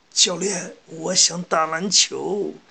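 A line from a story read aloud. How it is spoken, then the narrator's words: Crying. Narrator (Chinese): 三井寿……哭着对安西教练说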